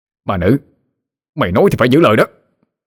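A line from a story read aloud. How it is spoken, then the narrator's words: Shouting. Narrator (Vietnamese): Hắn hét lên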